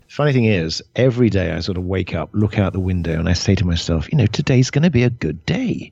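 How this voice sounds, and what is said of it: Clear British accent. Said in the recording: “British accent going for you there. It's very, very clear.”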